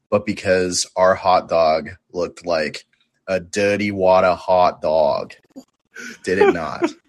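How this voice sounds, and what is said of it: New York accent. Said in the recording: “Was that your New York accent? Oh my God.”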